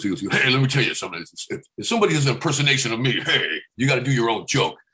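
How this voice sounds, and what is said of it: Imitates another person's voice. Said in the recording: “I remember when Rodney Dangerfield said, he goes”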